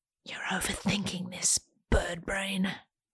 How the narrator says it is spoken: rational Janine leans in to whisper

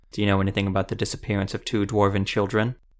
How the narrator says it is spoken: Zevo asked flatly

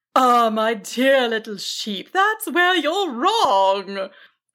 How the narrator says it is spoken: the dragon chuckled

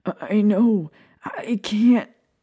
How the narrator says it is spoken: Sirius stammered, looking anguished

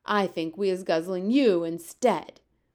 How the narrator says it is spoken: the flesh lump eater bellowed

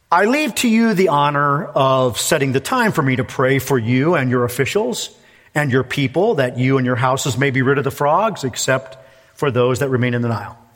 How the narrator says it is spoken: Moses said, and somewhat in a mocking tone, I think, to Pharaoh

